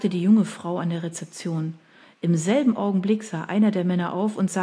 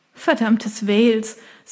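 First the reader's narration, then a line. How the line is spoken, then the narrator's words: Embarrassed laugh. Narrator (German): sagte sie und lachte verlegen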